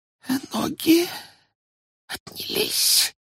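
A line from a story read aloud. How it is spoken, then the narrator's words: Frightened whisper. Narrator (Russian): прошептал Ларионов, испуганно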